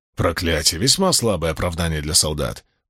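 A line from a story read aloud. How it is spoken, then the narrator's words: Grumbling. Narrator (Russian): проворчал Уна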